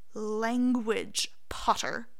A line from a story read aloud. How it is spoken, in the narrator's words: Snape says slowly